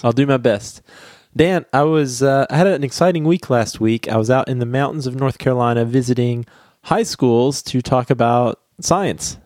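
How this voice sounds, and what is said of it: Crackly voice. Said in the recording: “I have a cold ... the crackly voice”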